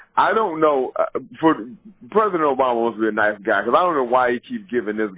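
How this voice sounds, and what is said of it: Usual voice. Nothing is said of it.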